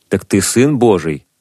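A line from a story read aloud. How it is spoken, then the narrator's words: Plain. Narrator (Russian): спросили они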